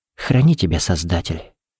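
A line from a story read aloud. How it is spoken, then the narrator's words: Whispered. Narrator (Russian): прошептала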